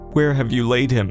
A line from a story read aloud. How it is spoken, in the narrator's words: he groaned in the spirit and was troubled and said